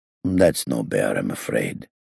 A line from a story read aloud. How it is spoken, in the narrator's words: the owner said in his dull voice